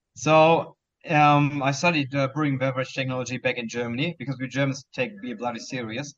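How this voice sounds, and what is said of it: German accent. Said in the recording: “as you can already tell by my accent, I'm from Germany”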